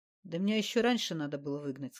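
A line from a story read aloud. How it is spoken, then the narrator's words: Plain. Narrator (Russian): сказал он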